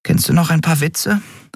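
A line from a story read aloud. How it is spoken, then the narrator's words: Tired question. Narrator (German): fragte sie müde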